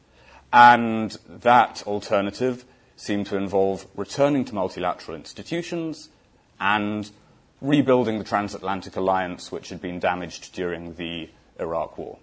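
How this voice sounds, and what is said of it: Accent from across the Atlantic. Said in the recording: “as my accent suggests, is interested in events on both sides of the Atlantic”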